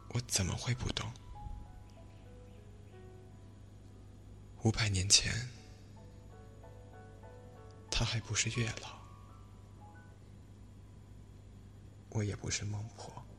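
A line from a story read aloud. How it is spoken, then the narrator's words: Long wistful sigh. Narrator (Chinese): 孟婆悠悠一叹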